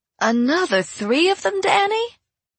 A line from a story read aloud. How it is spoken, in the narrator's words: Rainy Lane exclaimed